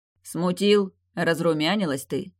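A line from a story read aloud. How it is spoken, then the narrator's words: Scoffing young man. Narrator (Russian): хмыкнул парень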